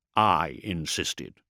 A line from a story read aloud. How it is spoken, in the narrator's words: Courland said quietly